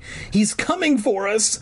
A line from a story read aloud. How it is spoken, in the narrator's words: Clark cried